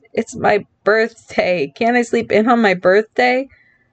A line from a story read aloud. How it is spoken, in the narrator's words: he groaned